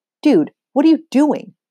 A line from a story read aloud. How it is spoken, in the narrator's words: Topher hisses